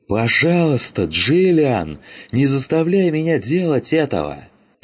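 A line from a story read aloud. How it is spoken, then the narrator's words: Shouting again. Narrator (Russian): прокричал он еще раз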